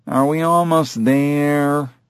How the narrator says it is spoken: the kid whined

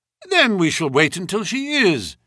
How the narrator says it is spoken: said Holmes cheerfully

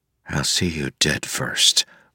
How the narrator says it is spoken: Wax said softly

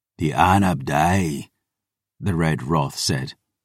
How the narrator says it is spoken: his voice a rasping growl

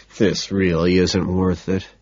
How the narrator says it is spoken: I mutter

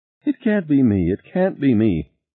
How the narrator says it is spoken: Harry moaned

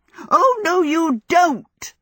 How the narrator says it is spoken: Sophie shouted

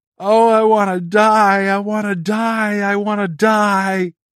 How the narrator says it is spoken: Over and over, his hysterical screams

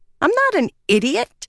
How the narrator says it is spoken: she snapped

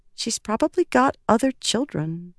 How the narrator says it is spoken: Lift said softly

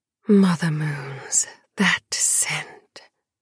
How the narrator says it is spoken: breathed

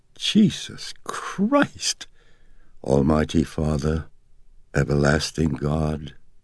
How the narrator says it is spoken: gasped

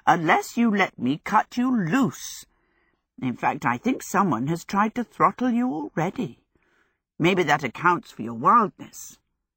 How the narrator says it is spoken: she told the dog in her cracked old voice

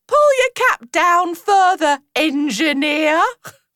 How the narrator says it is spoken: she called out

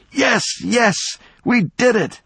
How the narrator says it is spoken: She was gasping for breath

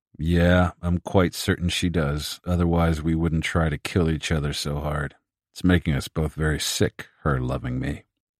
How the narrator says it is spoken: He paused, then added in a contemplative monotone

